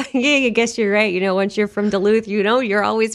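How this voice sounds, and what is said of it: Usual voice. Nothing is said of it.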